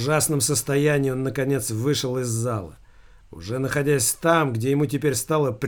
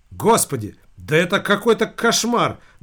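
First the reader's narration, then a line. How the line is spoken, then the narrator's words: Fairly loud woman. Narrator (Russian): довольно громко произнесла женщина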